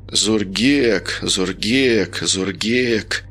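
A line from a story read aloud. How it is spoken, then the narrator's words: Muttering. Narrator (Russian): пробормотал Женя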